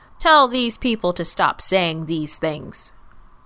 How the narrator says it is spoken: they shouted from the side of the road

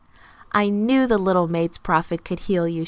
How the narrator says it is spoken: said

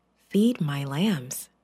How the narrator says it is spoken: Jesus said quietly

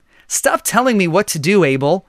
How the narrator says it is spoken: his voice was irritated

